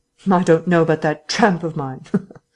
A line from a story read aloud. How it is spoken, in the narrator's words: said the invisible man, with an unpleasant laugh